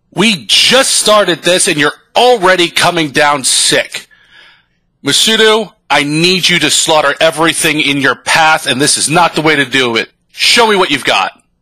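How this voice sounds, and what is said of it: Yelling like a mean drill sergeant. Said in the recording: “Why are you yelling at me? ... it's the drill sergeant programming, so Sensei's got to be mean”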